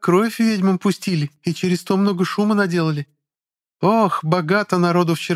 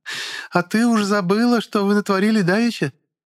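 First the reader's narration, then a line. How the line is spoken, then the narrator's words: Laughing woman. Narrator (Russian): Женщина на троне рассмеялась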